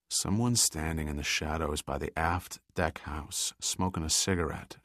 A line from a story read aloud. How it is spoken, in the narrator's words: Giordino spoke softly in Pitt's ear